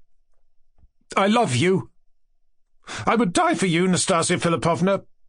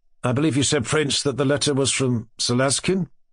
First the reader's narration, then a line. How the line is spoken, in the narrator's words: asked Titsin